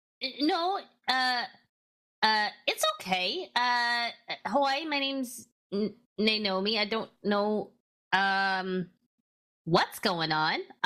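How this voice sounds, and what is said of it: Put-on regional fantasy accent. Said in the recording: “That accent, you're from Seer, aren't you?”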